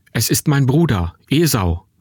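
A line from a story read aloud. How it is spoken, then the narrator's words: Calling out to group. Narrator (German): rief meinen Leuten zu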